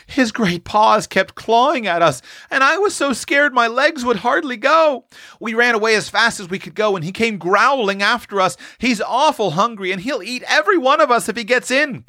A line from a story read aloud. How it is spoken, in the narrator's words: quavered Roxy